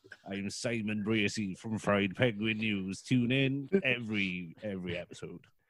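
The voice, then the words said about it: Imitates another person's voice. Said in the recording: “That's an amazing Simon impression. ... You've nailed it.”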